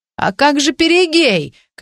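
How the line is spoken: Shout. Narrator (Russian): крикнул принц

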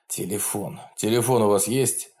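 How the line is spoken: Hoarse, wincing in pain. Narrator (Russian): хрипло проговорил он, морщась, когда тугой бинт сдавил ему ногу

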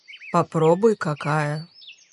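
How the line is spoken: Smiling. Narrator (Russian): Улыбнулся он

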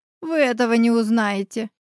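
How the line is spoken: Giggling. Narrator (Russian): хихикнула Елена

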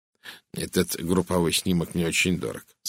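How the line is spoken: Plain. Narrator (Russian): сказал он

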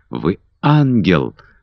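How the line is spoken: Exclamation. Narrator (Russian): воскликнул Питер

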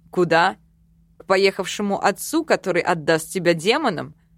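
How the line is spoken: Snorting. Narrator (Russian): Эрик фыркнул

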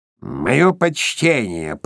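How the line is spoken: Forced grumbling voice. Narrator (Russian): пробурчал Скрудж изо всех сил, стараясь говорить тем же ворчливым голосом, которым говорил всегда

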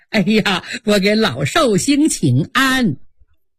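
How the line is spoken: Beaming, smiling greeting. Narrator (Chinese): 满脸堆笑 嘴里还说

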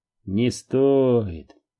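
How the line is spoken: Gracious reply. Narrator (Russian): благосклонно ответил Брайан

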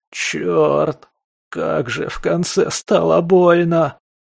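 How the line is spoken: Groaning skunk. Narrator (Russian): простонал мигом успокоившийся скунс

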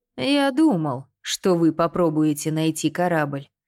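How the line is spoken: Growl. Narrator (Russian): прорычал он

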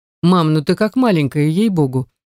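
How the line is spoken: Insistent. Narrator (Russian): не унимается мой новоиспеченный родственник

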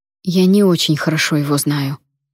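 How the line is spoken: Forced calm. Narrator (Russian): заставив себя говорить спокойно, произнесла я

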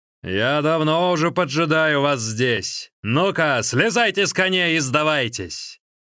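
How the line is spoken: Thunderous shout. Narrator (Russian): Голосом, подобным раскатам грома, Сунь Ли закричал

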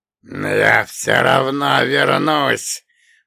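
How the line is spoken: Wheezing, bloody gurgle. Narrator (Russian): прохрипел Бендуев, пуская кровавые пузыри из порезанных острыми губами губ

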